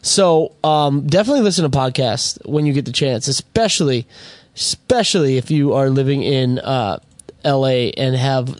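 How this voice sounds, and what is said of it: Hoarse, worn-out voice. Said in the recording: “My voice is done for. My voice is shot, guys.”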